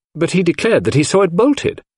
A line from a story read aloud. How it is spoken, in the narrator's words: I cried